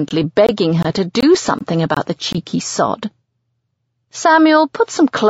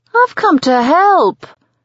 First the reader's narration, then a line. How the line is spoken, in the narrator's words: he whines